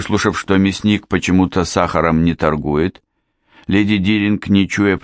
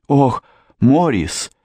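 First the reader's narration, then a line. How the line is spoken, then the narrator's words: Frightened babbling. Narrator (Russian): испуганно пролепетала леди Диринг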